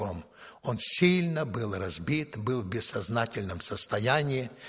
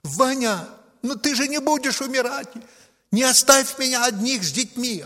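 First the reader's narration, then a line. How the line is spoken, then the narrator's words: Screamed. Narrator (Russian): она закричала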